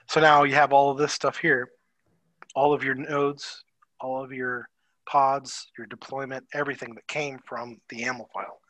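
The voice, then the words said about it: Slightly hoarse, tired voice. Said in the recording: “my voice is going a little hoarse now”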